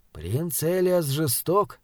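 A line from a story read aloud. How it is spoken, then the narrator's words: Muttered. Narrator (Russian): пробормотал Таузер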